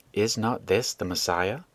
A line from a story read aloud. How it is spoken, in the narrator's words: It was whispered by many